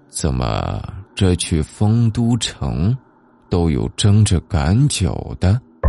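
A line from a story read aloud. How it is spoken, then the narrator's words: Low murmur. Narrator (Chinese): 老人低声喃喃道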